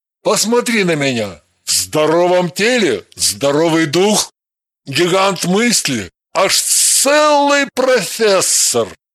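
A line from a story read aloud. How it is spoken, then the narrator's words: Moaning. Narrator (Russian): Далила простонала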